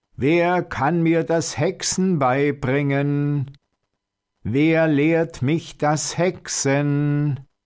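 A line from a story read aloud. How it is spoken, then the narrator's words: Shouting as loud as possible. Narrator (German): rief immer wieder, so laut er konnte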